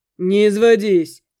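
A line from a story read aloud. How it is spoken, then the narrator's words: Short laugh. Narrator (Russian): хохотнул Макс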